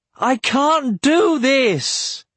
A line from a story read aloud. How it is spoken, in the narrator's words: he howled at the sky